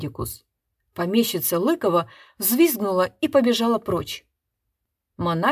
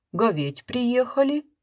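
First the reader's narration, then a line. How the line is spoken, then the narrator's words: Cheerful. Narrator (Russian): вышло уже совсем весело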